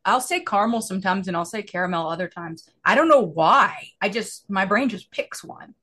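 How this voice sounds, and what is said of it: Drawling Southern US accent. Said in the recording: “as a Southerner ... my accent's still a Southern accent ... my normal accent is very drawling”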